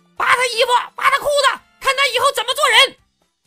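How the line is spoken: Sudden shouting. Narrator (Chinese): 突然听到一阵喊

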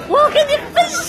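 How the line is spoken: Loud shout. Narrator (Chinese): 大声的喊

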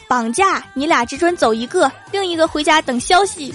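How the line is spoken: Menacing men shouting. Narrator (Chinese): 三个持刀蒙面大汉，叫道

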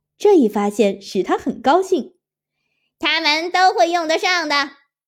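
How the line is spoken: Calling out. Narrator (Chinese): 乌龟叫道

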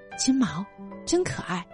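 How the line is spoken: Soft voice. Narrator (Chinese): 有人轻声说

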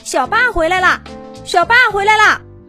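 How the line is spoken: Loud excited shouting. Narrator (Chinese): 好几只跟小霸年纪差不多的霸王龙……大声喊着

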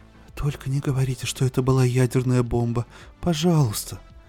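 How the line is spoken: Genteel, honeyed murmur. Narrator (Russian): пробормотала знаменитость слева благовоспитанным, медоточивым голосом богатой женщины

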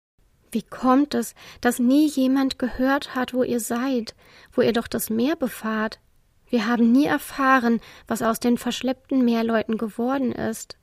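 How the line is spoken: Plain. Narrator (German): sagte Aromi

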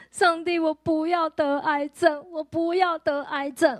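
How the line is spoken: Sudden sobbing. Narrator (Chinese): 我就突然大哭，我就跟神说

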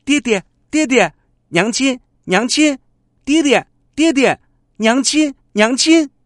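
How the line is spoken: Giggling child, repeated calling. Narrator (Chinese): 笑嘻嘻的，不住的叫

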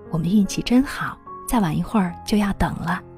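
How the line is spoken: Delighted whisper. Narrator (Chinese): 我很惊喜，和女儿小声说

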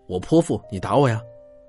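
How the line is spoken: Aggrieved, tearful wild shout. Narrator (Chinese): 委屈的红了眼，狂喊道

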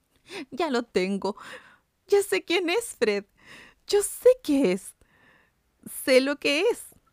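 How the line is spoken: Excited woman exclaiming. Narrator (Spanish): la hermana rellenita, que había caído en un ataque similar, exclamó

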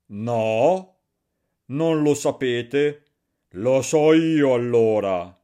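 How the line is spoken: Shouted. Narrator (Italian): gridò Barbablù

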